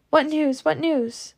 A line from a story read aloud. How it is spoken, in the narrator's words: their knees buckling from weariness, Scarlet and Pity cried to man after man